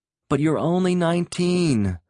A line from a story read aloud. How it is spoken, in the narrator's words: Rick pleaded